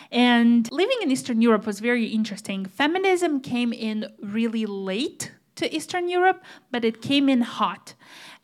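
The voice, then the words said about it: Slight Eastern European accent. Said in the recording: “I do come from Eastern Europe, if you're picking up on that little accent of mine.”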